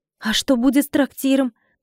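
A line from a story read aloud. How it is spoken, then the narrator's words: Exclaiming, near tears. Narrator (Russian): воскликнула я, едва сдерживая слезы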